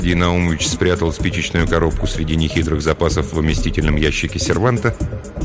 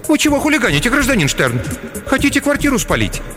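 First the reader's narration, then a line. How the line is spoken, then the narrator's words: Frightened question. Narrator (Russian): Клавдия Васильевна испуганно спросила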